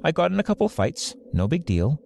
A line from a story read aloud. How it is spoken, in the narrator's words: she said, shrugging